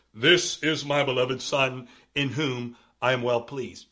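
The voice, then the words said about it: Deep voice imitating God. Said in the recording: “why does God always have a deep voice? ... it just sounds better if you give God a deep voice.”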